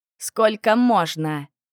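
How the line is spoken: Exclamation. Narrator (Russian): воскликнул Коул

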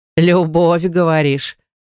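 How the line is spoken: Hoarse laugh. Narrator (Russian): хрипло рассмеялась затейница

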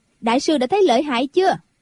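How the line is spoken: Laughing loudly. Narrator (Vietnamese): Quách Tường cười to

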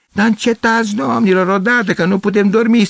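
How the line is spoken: Annoyed shout. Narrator (Romanian): strigă cineva

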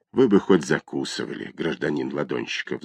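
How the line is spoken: Sighing police officer. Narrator (Russian): вздохнул участковый

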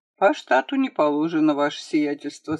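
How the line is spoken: Calm reply. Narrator (Russian): спокойно ответил Семен Емельянович

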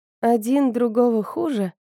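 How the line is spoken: Sleepy repeating. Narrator (Russian): повторила Атия сонным голосом

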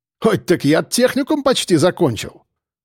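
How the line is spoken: Snorting. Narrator (Russian): фыркнул Гера

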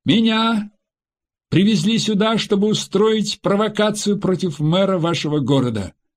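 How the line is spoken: Unexpectedly loud in silence. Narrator (Russian): В наступившей тишине Саид неожиданно громко сказал

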